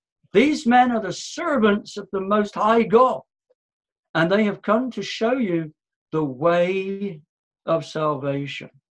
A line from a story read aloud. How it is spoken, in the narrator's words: this demon-possessed girl, and she keeps shouting out